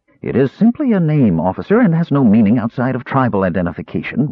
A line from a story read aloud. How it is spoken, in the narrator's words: Raceland said, smoothly breaking into Earwig's recitation of his family tree